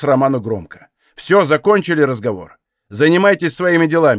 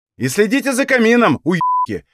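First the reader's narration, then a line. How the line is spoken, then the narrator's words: Shouted. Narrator (Russian): выкрикнул Танис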